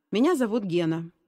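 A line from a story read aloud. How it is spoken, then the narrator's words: Calm. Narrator (Russian): спокойно произнес новенький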